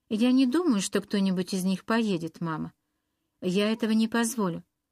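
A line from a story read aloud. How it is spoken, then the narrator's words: Plain. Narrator (Russian): сказал Ред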